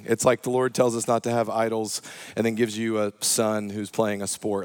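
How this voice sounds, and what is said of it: Slightly hoarse voice. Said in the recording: “My voice is a little hoarse. I was yelling.”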